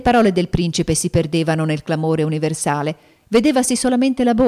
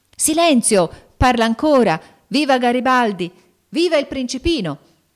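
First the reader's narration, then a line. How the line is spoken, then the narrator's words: Shouting. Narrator (Italian): gridando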